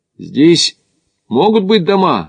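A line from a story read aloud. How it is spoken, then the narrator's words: Shouted. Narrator (Russian): крикнул Смит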